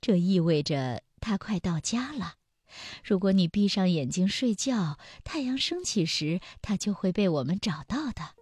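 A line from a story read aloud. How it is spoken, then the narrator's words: Sighing, moved. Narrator (Chinese): 妈妈感叹道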